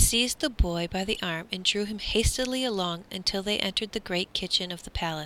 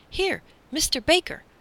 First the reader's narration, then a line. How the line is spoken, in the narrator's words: the man called excitedly